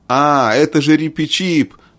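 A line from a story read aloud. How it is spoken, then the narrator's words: Exclamation. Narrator (Russian): воскликнул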